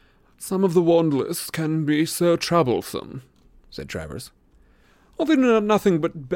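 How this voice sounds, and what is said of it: Usual voice. Nothing is said of it.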